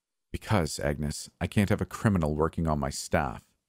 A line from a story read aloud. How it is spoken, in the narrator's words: Helen in a hushed voice answered